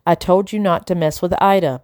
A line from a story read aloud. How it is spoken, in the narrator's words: Blue said